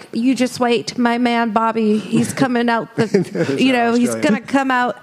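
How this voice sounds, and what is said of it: Horrible imitated accent. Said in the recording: “I don't know this accent. I'm sorry. ... I know this horrible rubber nuts accent.”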